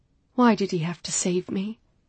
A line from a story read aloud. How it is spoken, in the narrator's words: I murmured